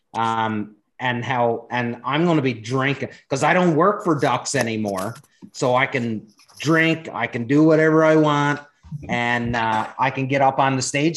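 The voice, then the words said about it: Speaks with a noticeable accent. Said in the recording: “you can laugh at my accent”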